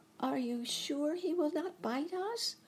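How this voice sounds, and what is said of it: Timid voice of the mouse queen. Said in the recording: “in a timid voice”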